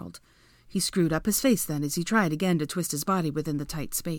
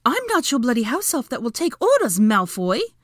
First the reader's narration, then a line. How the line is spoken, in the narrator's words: Hermione interrupted angrily